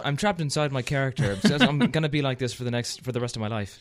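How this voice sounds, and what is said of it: Americanized put-on Irish brogue. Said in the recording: “you're speaking in an Irish brogue ... I'm gonna go through with the Irish accent. And of course, it's more Americanized”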